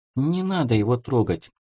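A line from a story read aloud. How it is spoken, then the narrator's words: Quiet objection. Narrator (Russian): тихо возразила Стеша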